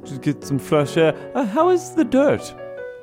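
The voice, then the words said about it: New put-on pretentious accent. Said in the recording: “What is this new accent you have? ... You're talking differently.”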